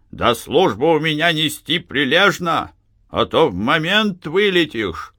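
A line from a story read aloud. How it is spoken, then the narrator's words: Menacing shout. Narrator (Russian): Маленький, усатый, он закричал грозно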